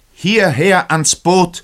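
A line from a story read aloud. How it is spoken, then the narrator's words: Shout. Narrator (German): schrie der Kapitän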